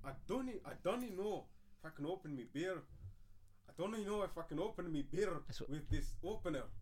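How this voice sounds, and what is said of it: Put-on Scottish accent. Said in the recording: “Scottish accent sounded”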